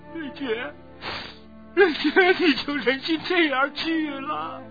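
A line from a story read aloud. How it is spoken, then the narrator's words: Loud wailing. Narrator (Chinese): 又添了一种响亮的哭声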